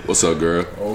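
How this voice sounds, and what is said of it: Put-on deep voice. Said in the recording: “he hit the deep voice.”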